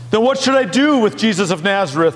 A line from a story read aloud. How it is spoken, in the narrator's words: Pilate shouted to the mob